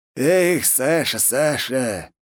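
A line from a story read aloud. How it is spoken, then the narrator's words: Heavy sigh over phone. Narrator (Russian): тяжело вздохнул в трубку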